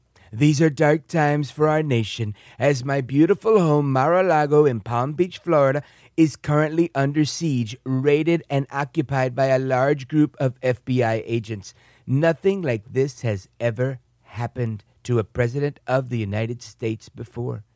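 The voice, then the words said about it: Rough Donald Trump impression. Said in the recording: “my Trump voice ... My Trump needs a little work”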